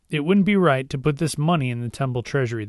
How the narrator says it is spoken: they said

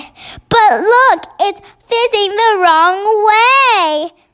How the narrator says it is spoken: cried Sophie

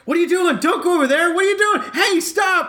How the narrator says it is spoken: she starts yelling at me, saying

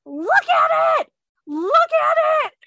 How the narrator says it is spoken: I started screaming

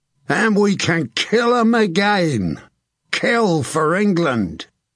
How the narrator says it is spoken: Thomas Evelgold yelled

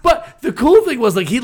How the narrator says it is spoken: he laughed and he joked

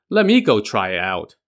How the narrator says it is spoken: Lu Ya chuckled and said

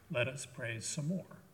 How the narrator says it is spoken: Mother Teresa said

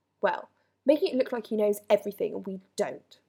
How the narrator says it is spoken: Ron snarled

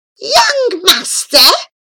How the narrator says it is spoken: the loathly woman called out in a cackling voice

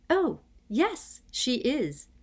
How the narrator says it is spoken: said Hermione happily

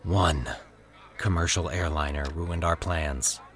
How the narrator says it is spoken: Max sighed

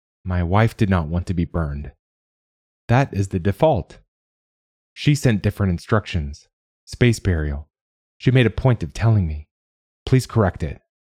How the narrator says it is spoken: He forced himself to take a deep breath … then continued, more calmly

